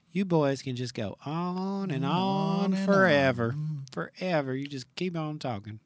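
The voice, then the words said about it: Southern Texas-style accent. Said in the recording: “Did I get her accent right? No. ... I always do Texas, and she's South Carolina. ... She's Colfax, Louisiana.”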